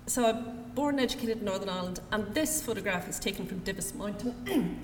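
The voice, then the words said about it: Northern Irish accent. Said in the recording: “you'll have figured out that I'm from Northern Ireland. Sorry about the accent”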